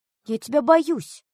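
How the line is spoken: Cried out. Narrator (Russian): выкрикнула Ева

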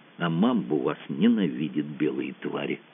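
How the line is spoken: Sad whisper through teeth. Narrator (Russian): грустный негр сквозь зубы шепчет

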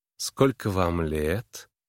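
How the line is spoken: Lazy, languid. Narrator (Russian): Голос ее звучал лениво и томно

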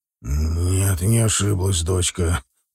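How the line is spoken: Muttered. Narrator (Russian): пробормотал он

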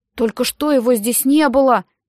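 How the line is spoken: Exclaiming. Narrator (Russian): воскликнул Дэми

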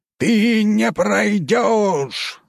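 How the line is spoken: Yelling. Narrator (Russian): заорал комендант

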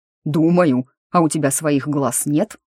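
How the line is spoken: Barked, demon. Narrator (Russian): рявкнул демон

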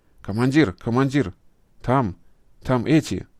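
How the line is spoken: Stuttering into walkie-talkie. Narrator (Russian): заикаясь, говорил он в рацию у оки-токи

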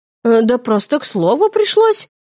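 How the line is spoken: Confused reply. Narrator (Russian): растерянно отозвалась она

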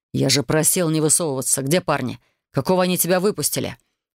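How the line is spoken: Curt, clipped. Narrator (Russian): Отрывисто бросил он

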